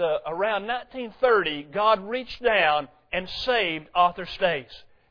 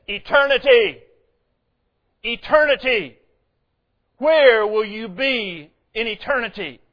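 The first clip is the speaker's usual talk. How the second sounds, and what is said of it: Thunderous British-Australian preaching voice. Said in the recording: “in that thunderous British-Australian accent”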